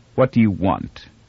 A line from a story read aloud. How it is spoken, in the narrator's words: Barr said coldly